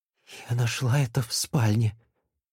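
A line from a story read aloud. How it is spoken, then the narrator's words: Whispered. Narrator (Russian): прошептала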